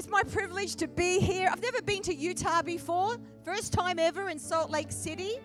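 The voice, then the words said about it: Australian accent. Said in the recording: “You guys are hearing a lot of Aussie accents, aren't you? You're getting used to the Aussie accent.”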